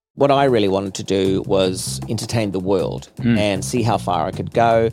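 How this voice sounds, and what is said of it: New Zealand accent. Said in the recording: “I was always going to use this accent, and I was always going to be proud to be a New Zealander.”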